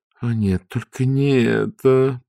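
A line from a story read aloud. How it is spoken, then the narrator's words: Groan. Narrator (Russian): простонала Ангва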